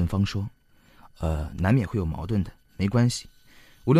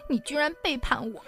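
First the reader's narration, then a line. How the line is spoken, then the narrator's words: Tearful complaining. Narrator (Chinese): 女人开始哭诉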